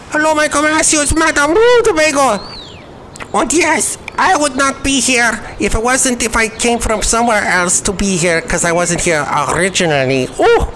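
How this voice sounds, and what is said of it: Exaggerated foreign accent. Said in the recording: “that accent doesn't sound like a boring American accent. It's got flavor. It's got all this nuance from some other country, some land far away.”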